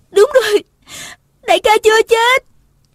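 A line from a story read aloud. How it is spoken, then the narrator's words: Relieved woman crying out. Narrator (Vietnamese): Thấy chàng còn hơi ấm, nàng la lên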